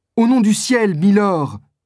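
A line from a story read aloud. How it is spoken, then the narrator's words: Exclaiming. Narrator (French): s'écrie Constance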